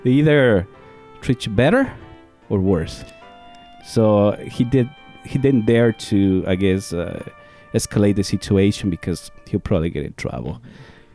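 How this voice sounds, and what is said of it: Heavy Spanish accent. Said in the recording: “my heavy accent that I have, you know, my Spanish heavy accent.”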